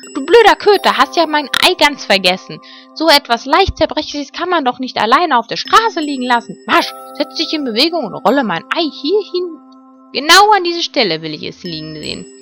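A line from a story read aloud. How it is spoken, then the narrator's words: Indignant scream. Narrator (German): schrie sie empört auf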